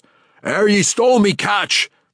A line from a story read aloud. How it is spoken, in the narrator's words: the captain of the second ship roared